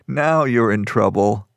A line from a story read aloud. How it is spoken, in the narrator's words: Stankner said with a low laugh